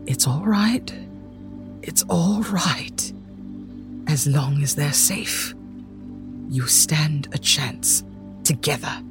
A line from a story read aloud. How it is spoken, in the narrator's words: very quietly saying